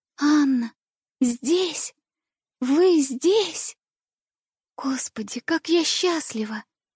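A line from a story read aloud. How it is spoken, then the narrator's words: Whisper. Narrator (Russian): Шептала я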